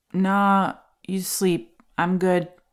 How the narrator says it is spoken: I slurred back

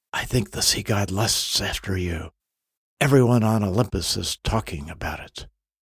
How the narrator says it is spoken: One of the other gods whispers

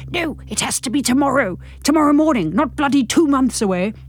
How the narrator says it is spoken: Derek was hissing at me

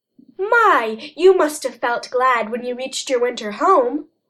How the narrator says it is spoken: exclaimed Peter Rabbit

